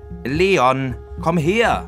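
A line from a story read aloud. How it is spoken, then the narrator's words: Angry call. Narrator (German): rief ärgerlich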